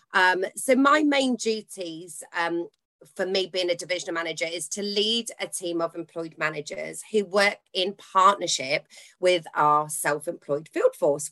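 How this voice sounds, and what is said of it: Bristolian English accent. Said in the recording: “if you haven't already can hear from my voice, I live near Bath, but I sound very Bristolian”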